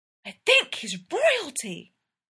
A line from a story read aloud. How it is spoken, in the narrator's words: Ella hissed